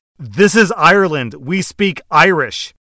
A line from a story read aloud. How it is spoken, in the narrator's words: fuming after hearing this and shouts in perfect English